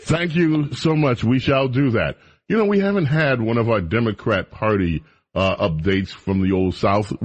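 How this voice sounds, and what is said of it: Southern American accent. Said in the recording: “your southern accent ... keep talking with your southern accent.”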